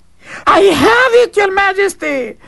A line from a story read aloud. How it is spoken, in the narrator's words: the servant cried